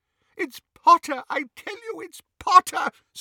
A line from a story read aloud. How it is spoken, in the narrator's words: sobbed Xenophilius